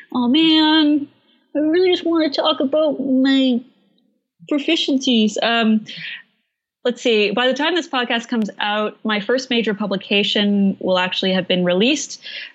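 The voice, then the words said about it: Canadian accent. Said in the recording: “there's that Canadian accent.”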